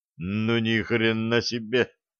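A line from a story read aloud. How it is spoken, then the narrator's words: Mutter. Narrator (Russian): пробормотал Фиолетовый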